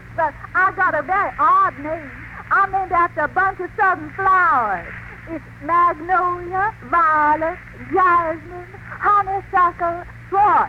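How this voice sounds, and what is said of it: Exaggerated American Southern accent. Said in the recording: “You have a crazy accent, miss. Are you from the South? ... Yes, I'm from the solid South.”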